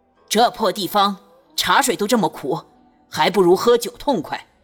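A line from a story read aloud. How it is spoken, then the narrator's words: Loud. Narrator (Chinese): 孙家大声道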